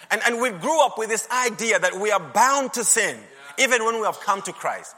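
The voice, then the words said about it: Northern accent. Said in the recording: “my accent from the north”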